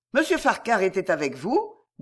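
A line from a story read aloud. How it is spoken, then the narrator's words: Brisk, quick. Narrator (French): dit Jemima vivement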